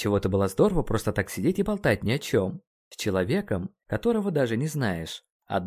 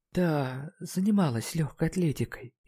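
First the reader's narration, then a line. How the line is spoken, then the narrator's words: Barely audible answer. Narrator (Russian): едва слышно ответила она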